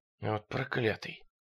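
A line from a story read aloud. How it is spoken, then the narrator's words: Muttered. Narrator (Russian): пробормотал Брайлинг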